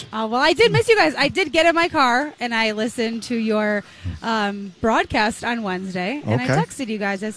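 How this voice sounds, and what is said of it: Slightly raspy voice. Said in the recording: “my voice is a little raspy today ... I've just been trying to get everyone hyped up”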